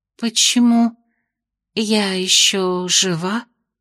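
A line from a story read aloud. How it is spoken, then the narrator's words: Hoarse. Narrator (Russian): хрипло спросила она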